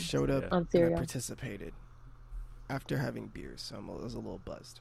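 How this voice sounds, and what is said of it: Rough, strained voice. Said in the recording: “my voice sounds shitty ... it sounds rough”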